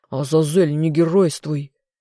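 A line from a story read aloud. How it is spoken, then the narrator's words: Angry growl. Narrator (Russian): в сердцах рыкнул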